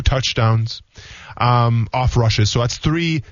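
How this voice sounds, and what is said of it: Usual voice. Nothing is said of it.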